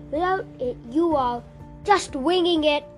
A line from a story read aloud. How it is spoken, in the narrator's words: Hawkeye cried